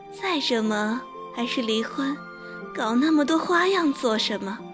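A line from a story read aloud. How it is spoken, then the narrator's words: Flippant laugh. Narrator (Chinese): 露儿笑得有些轻佻，说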